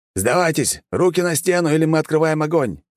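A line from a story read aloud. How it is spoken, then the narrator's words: Shouted. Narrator (Russian): выкрикнул боец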